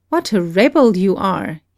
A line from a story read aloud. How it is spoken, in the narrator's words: exclaimed